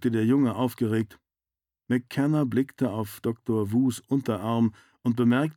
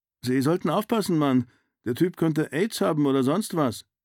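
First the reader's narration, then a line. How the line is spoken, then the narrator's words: Excited boy. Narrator (German): sagte der Junge und hüpfte aufgeregt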